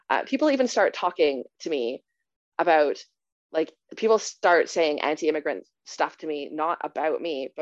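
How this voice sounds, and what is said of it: Speaks English with a foreign accent. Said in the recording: “despite my accent”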